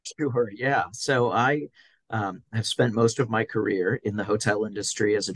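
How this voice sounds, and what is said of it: American accent, Florida. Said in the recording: “you can guess by his accent, he's not from the UK. He's actually from Florida”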